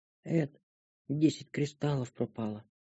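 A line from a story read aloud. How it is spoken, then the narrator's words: Whispered. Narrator (Russian): прошептала Шантри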